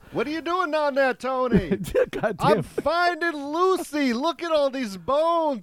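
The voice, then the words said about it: Put-on Italian accent. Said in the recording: “My Italian accent just went away.”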